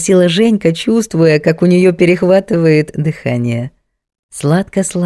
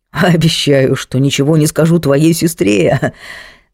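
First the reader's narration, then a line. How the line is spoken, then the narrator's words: Conspiratorial laugh. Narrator (Russian): заговорщически засмеялся Андрей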